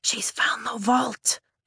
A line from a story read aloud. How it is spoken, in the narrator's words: I whisper